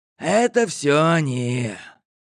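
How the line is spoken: Hoarse. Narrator (Russian): Он хрипло ответил

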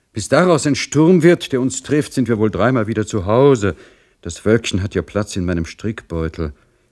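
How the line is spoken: Sighing, breathless speech. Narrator (German): sprach Madame Singwald, der dies raschere Tempo Seufzer entlockte

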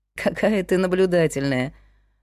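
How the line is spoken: Laughing. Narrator (Russian): рассмеялась Зинаида

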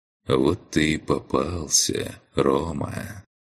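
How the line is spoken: Quiet. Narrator (Russian): Негромко произнес он

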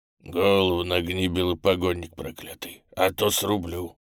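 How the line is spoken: Hoarse bass warning. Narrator (Russian): Хриплым басом предупредил он

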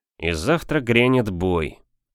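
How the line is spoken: Muttered. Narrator (Russian): пробормотал Серов

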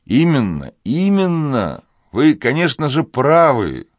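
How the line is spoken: Exclamation. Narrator (Russian): воскликнул Азиз

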